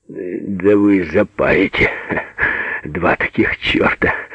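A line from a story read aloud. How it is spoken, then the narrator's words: Nervous laughing speech. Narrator (Russian): опасливо смеялся Петр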